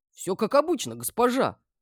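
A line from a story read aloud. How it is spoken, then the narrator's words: Guard exclaiming. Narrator (Russian): воскликнул охранник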